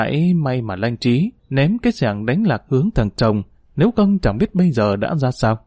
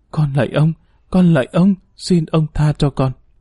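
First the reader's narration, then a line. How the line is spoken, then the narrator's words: Trembling, frightened moan. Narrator (Vietnamese): tiếng rên rỉ, run rẩy, sợ hãi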